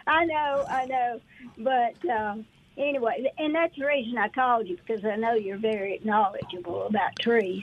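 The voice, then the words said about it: Southern American accent. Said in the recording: “It's probably my southern accent.”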